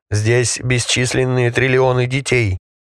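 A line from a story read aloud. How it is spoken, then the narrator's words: Solemn booming announcement. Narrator (Russian): торжественно протрубил хранитель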